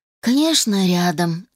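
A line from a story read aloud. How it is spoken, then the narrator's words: Sighing. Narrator (Russian): вздохнул Питер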